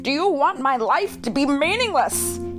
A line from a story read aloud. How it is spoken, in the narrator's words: he shouted